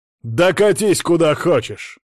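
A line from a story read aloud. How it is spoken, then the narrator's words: Angry bark. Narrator (Russian): в сердцах рявкнул глава рода Було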